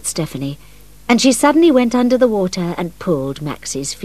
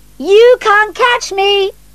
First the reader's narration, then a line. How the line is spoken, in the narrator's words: she shouted